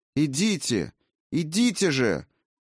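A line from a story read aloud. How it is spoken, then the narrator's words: Shouting. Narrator (Russian): выкрикнула Валькирия, обращаясь к безмолвным теням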